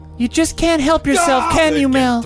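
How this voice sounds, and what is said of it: Higher, smaller character voice. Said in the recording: “I'm tiny so my voice is higher and smaller”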